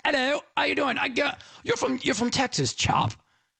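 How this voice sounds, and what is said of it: Mock English accent. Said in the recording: “Now, he's got an English accent.”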